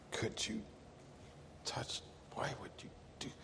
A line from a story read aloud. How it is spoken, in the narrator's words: the pious monk … muttering under his breath